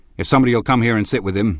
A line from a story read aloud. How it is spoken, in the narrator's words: he snapped authoritatively